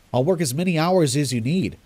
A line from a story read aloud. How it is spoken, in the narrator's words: I said quickly